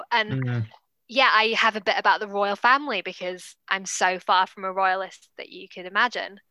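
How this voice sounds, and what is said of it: Posh British English accent. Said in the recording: “quite a posh British accent or English accent”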